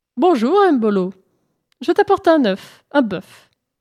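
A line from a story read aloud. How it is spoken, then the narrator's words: Cheerful offer. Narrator (French): proposa-t-elle gaiement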